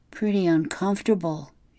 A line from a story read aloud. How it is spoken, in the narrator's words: she murmured